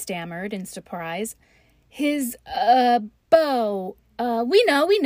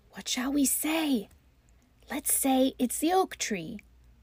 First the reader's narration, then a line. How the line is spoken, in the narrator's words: turning desperately to one another, they whispered